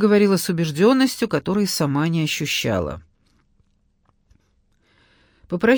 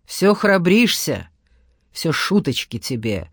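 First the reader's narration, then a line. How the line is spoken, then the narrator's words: Menacing. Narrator (Russian): грозно проговорила Света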